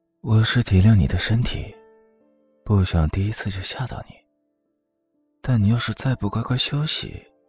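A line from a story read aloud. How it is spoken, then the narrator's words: Low, chuckling murmur. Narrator (Chinese): 连峰低笑，凑到他耳边低声道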